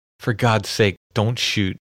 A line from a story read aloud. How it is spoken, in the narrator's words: he has heard a woman's voice pleading